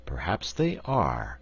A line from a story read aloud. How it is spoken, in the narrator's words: assented the wizard in a thoughtful tone of voice